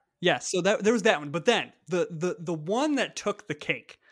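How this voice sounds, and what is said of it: Usual voice. Nothing is said of it.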